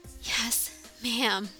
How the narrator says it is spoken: In unison, we panted, trying to catch our breaths, and said

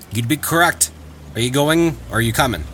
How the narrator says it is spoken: Talbot replied

